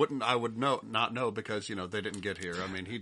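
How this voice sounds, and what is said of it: Usual voice. Nothing is said of it.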